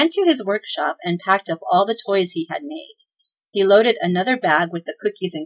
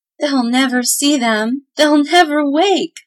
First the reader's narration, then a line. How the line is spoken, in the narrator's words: sobbed the mother